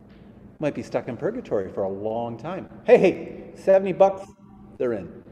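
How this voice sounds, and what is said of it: Usual voice. Nothing is said of it.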